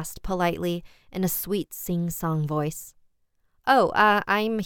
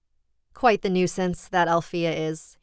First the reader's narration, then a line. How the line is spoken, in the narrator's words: he chuckled fondly